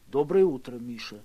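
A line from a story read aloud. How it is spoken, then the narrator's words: Quiet, from behind. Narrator (Russian): тихо сказал за моей спиной Лодкин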